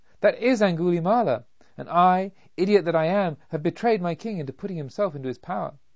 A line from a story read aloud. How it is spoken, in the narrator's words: called out